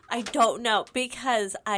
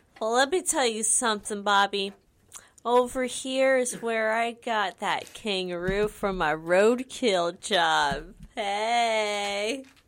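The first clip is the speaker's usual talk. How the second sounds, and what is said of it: Put-on Southern US accent. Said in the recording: “I don't know why I sound southern ... the accent just came out.”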